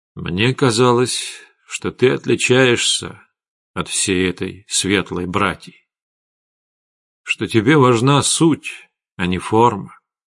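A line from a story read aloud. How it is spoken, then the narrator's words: Gloomy. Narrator (Russian): мрачно сказал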